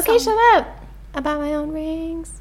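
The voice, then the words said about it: Sung with country twang. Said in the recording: “Why are you singing it like a country song? ... Oh, real twang.”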